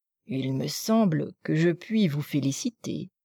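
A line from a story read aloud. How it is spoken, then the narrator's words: Murmur. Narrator (French): murmura Anna Pavlovna à la princesse mère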